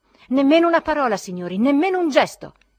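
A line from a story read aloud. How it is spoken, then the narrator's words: Solemn shout. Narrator (Italian): gridò solennemente Zverkov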